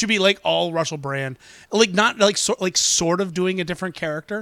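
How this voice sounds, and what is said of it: Usual voice. Nothing is said of it.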